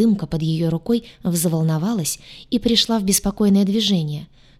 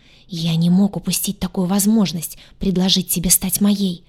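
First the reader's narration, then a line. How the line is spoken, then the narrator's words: Fast whisper. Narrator (Russian): шепотом заговорил быстро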